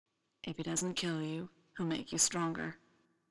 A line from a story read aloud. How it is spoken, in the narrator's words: Tim whispers in his ear